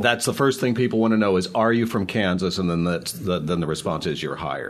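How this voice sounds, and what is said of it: Low, dulcet voice. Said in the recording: “listen to the dulcet tones. He's got that lower register. It's fabulous.”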